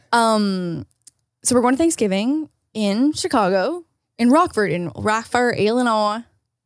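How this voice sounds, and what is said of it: Failed Northern Illinois accent attempt. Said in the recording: “That's not really how a Northern accent works... I don't know what accent that was, but it's certainly not Illinois and certainly not Northern Illinois.”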